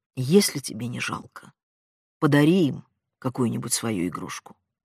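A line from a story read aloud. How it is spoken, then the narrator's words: Mother's quiet voice. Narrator (Russian): мать негромко сказала сыну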